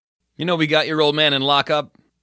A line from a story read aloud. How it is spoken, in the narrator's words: said